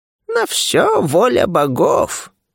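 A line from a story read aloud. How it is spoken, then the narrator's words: Old woman's croak. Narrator (Russian): прохрипела старуха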